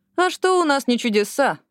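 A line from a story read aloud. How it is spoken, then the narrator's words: Laughing. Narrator (Russian): рассмеялась Эшли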